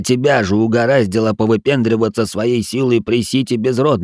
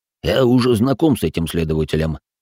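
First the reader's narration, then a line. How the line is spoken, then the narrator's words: Smirking grunt. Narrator (Russian): хмыкнул маг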